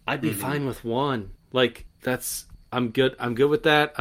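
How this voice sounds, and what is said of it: Speaking quietly. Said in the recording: “I'm saying it quietly.”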